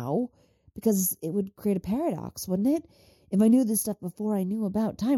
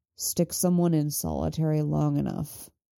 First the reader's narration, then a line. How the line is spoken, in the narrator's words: Mick says grimly